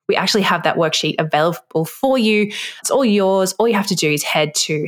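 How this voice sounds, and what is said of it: Speaks with a noticeable accent. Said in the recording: “If you can't understand my accent”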